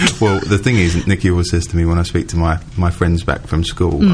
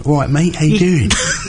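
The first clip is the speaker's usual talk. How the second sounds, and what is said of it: Switches into a broad local accent. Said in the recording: “I suddenly turn from, you know, relatively normal, no accent, to kind of”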